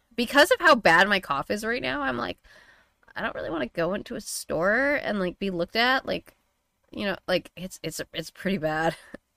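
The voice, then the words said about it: Rough voice with vocal fry. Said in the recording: “I don't know if you can hear the vocal fry. I can feel the vocal fry... I can hear it a bit, yeah.”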